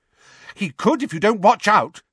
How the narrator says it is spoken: said Hermione angrily

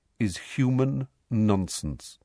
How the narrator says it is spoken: said Firenze calmly

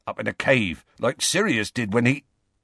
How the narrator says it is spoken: Hagrid broke off

